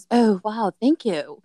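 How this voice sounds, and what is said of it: Poor British accent imitation. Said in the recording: “I fucking suck at a British accent. But he was British”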